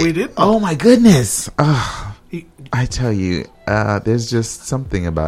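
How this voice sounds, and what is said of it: Usual voice. Nothing is said of it.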